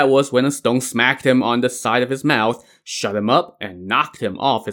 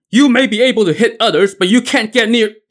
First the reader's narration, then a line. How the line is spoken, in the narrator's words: Xuan Zan yelled